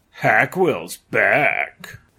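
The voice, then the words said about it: Growled horror-film villain voice. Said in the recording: “someone growled ... in a horror film accent.”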